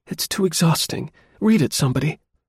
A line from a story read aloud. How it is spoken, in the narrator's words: exclaimed